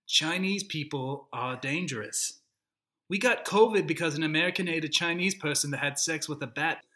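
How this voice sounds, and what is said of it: Bad Donald Trump impression. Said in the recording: “This is the worst Donald Trump impression.”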